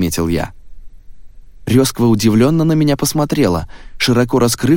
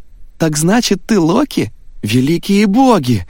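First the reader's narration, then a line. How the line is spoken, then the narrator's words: Exclamation. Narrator (Russian): воскликнула она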